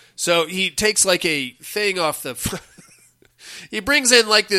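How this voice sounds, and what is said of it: Usual voice. Nothing is said of it.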